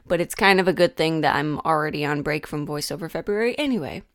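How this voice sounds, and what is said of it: Hoarse, under-the-weather voice. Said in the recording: “tell by my voice already, but I kind of feel like I'm coming down under the weather. My throat is a little shot”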